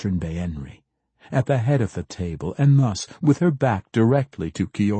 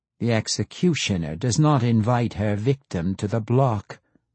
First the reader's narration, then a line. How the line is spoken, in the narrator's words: Baenri said evenly